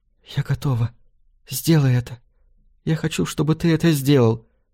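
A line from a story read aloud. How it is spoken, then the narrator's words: Whisper. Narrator (Russian): шепнула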